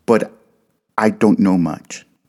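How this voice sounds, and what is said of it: Heavy Latin accent. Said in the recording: “she said with a rather heavy Latin accent.”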